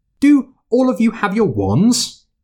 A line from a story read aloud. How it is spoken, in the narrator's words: called out